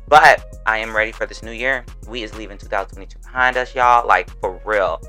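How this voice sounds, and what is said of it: Southern accent with a twang. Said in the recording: “I'm from the South, Florida to be exact. So while I'm talking, you may get a couple y'alls, finis, twang, all of it.”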